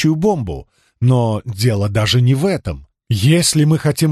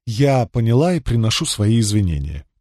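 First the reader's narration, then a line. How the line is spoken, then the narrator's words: Interrupting, then sighing. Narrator (Russian): прервала и вздохнула, собираясь с мыслями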